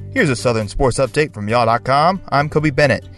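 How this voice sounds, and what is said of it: Southern accent. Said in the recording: “a Southern accent on sports”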